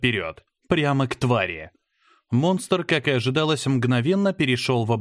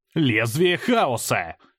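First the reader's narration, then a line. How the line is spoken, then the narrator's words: Barked. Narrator (Russian): рявкнул я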